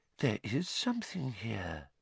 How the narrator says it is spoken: Professor Trelawney whispered, lowering her face to the ball

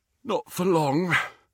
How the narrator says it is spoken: said Harry, yawning

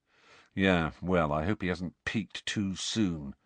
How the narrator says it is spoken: said Fred gloomily

